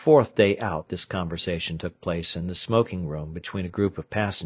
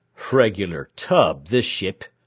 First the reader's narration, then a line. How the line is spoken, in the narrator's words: growled the man who knew it all to the bum actor